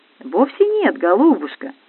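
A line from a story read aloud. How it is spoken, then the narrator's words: Tender encouragement. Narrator (Russian): ласково приободрил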